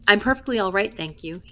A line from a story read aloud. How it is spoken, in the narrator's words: he said